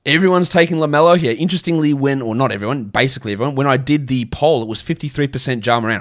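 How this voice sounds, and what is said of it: Australian accent. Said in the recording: “I say it with an Australian accent”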